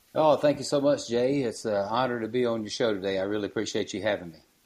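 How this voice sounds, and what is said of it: Mississippi Southern US accent. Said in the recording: “I could tell by your accent, that you're from Mississippi.”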